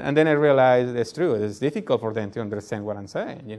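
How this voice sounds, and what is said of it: Noticeable foreign accent. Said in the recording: “you had this funny accent ... you have a lovely accent too”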